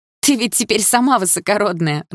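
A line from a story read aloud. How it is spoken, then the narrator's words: Laughing loudly. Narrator (Russian): расхохоталась подруга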